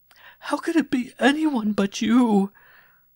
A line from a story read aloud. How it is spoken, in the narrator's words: she gasped between her sobs